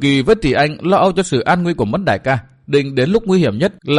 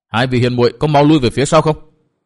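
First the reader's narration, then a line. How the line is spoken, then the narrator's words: Anxious loud shout. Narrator (Vietnamese): Chàng lo âu vô cùng, vội lớn tiếng quát bảo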